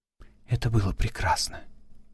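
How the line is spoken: Whispered. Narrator (Russian): прошептала она

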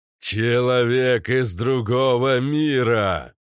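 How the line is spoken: Muffled, distant. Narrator (Russian): Слова, как после контузии, доносились глухо

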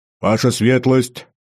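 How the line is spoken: Loud bark right at ear. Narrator (Russian): гаркнул кто-то совсем над ухом

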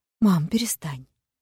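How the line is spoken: Gentle request. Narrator (Russian): мягко попросила та

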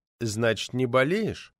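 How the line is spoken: Gentle, probing questioning. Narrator (Russian): Продолжал нежно пытать парторг

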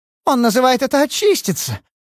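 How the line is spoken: Hysterical laughter. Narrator (Russian): Она истерически засмеялась

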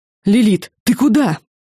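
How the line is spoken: Shouted after someone. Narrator (Russian): крикнула она в спину смотрительницы

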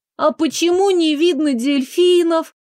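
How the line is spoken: Bored whiny girl's question. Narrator (Russian): спросила девочка занудным голосом

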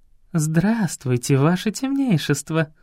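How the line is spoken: Ringing laughter. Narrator (Russian): заливисто рассмеялась

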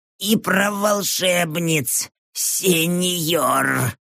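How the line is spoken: Hoarse rasp. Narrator (Russian): прохрипел бывший советник

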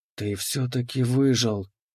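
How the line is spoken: Trembling whisper. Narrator (Russian): прошептала она, и ее голос дрогнул

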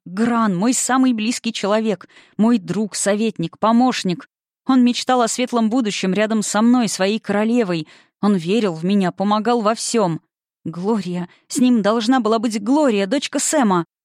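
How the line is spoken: Sobbing woman. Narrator (Russian): Всхлипнув

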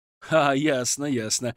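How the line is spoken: Laughing. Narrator (Russian): рассмеялся я

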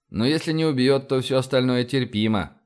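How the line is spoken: Snorting. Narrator (Russian): хмыкнул я

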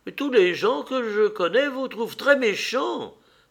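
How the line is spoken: Old woman exclaiming. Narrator (French): s'écria la vieille dame

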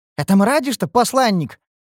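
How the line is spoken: Surprised snort. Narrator (Russian): хмыкнул Шальдур удивленно

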